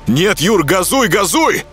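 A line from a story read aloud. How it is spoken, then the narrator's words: Shout. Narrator (Russian): крикнул я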